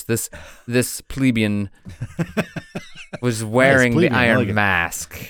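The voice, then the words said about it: Imitates another person's voice. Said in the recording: “Voltaire in a Voltaire voice.”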